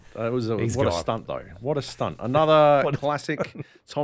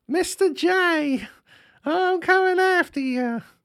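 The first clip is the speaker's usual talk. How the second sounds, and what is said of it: Harley Quinn character voice. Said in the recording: “She's doing a Harley Quinn accent, I guess. So that's weird.”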